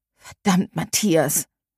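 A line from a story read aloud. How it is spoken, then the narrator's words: Murmuring. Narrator (German): murmelte sie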